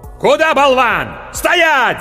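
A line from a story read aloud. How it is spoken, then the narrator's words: Sword yelling. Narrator (Russian): заорал меч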